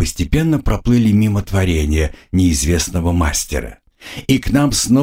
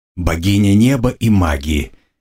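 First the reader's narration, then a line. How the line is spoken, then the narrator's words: Slightly contemptuous snort. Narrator (Russian): немного презрительно фыркнул я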